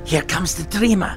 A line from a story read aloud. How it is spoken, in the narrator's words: one of them murmured